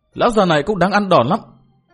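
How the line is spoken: Sullen angry shouting. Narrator (Vietnamese): hậm hực phùng mồm trợn mép quát tháo

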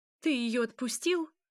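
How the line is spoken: Exclaiming. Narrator (Russian): воскликнула Власта

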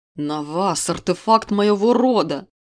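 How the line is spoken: Thunderous roar, king. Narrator (Russian): рявкнул король, заставив вздрогнуть стены

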